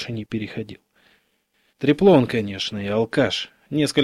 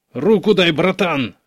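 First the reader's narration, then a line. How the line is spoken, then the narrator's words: Shouted. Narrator (Russian): крикнул Караваев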